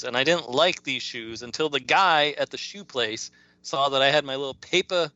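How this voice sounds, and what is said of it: Boston accent. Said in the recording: “that's my Boston accent.”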